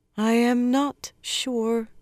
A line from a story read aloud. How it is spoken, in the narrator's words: she said slowly